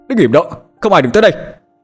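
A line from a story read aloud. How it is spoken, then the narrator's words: Yelled. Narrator (Vietnamese): Hải hét lên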